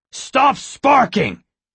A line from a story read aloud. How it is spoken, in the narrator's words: the main guard shouted